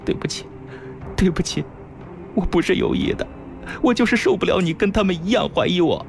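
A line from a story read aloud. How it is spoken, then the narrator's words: Regretful crying. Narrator (Chinese): 心中大悔……哭道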